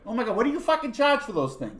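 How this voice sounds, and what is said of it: Put-on Boston accent. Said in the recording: “One of the ladies had flown in from Boston ... I'm not going to do the accent ... can I do it?”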